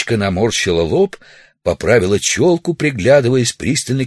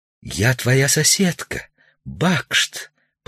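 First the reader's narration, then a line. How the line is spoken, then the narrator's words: Whisper. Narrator (Russian): прошептала милиция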